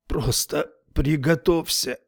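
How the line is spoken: Breathed out. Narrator (Russian): выдохнул

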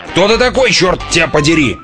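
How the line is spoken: Yelling. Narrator (Russian): заорал он

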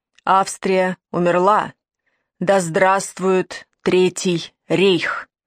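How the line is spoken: Harsh Prussian-accented voice. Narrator (Russian): резким голосом с прусским акцентом, который произнес

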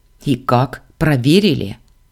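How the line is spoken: Snort. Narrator (Russian): фыркнул принц

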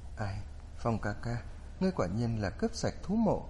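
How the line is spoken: Amazed, calm sigh. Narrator (Vietnamese): Kinh ngạc, Linh Kiếp Nhan thản nhiên thở dài

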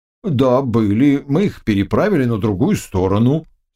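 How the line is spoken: Plain. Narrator (Russian): сказал перевозчик

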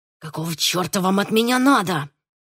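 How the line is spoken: Furious hiss, defeated young man. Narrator (Russian): в ярости прошипел поверженный молодчик

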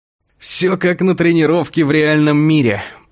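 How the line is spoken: Breathless groan. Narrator (Russian): простонал едва ко мне вернулся дар речи

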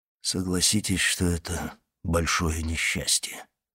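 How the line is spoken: Hollow, muffled voice. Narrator (Russian): сказал он глухим голосом

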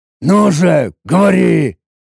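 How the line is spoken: Displeased growl. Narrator (Russian): рыкнул я недовольно

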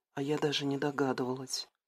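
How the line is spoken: Sad quiet whisper. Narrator (Russian): с тихой грустью в голосе прошептала Стелла

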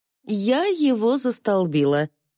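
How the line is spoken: Laughing. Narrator (Russian): засмеялась она

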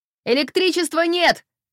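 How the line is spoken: Shouting. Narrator (Russian): закричала Халима

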